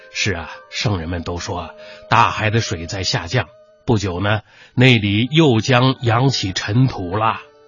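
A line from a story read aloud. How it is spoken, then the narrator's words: Sighing. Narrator (Chinese): 王远叹息道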